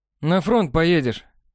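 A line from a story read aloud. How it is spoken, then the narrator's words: Laughing remark. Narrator (Russian): хохотнул он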